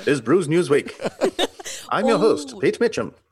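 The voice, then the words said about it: 1960s British newsreel announcer voice. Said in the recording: “And a little British accent. ... that was kind of my 1960s movie tone. ... cine tone voiceover guy.”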